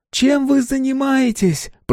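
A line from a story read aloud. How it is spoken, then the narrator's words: Shouting. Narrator (Russian): прокричала Нина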